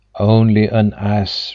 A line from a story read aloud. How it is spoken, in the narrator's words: replied the boy